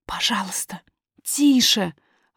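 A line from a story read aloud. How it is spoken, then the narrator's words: Hissing whispered exclamation. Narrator (Russian): воскликнула няня свистящим шепотом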